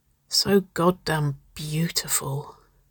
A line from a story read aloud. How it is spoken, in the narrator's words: she whispered